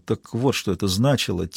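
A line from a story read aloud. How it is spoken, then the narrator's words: Quiet. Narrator (Russian): тихо произнес он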